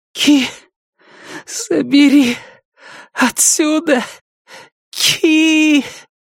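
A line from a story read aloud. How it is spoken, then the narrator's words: Hoarse wheezing whisper. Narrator (Russian): хриплый и свистящий шепот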